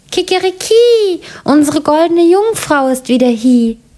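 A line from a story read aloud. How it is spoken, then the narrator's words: Rooster calling out. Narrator (German): der Hahn auf dem Brunnen und rief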